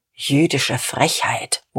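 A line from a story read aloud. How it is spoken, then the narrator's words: Muttered. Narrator (German): murmelte Diederich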